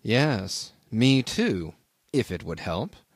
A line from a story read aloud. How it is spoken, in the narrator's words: I said also in a low tone